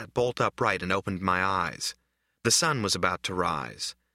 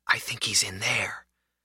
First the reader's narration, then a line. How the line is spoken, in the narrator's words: I heard someone whisper